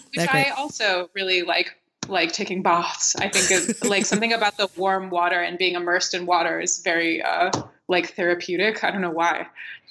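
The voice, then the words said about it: American accent. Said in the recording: “my stupid American accent”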